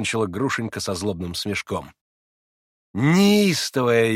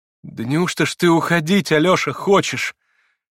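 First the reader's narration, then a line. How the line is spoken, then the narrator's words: Grieved, astonished exclamation. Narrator (Russian): воскликнула она в горестном изумлении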